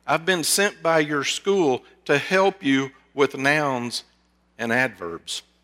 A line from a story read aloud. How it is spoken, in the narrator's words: Upset at the sight of the boy, she stammered